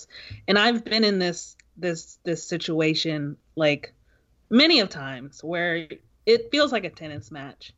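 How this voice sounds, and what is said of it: Emotional, choked-up voice. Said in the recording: “getting emotional, you can hear it in my voice.”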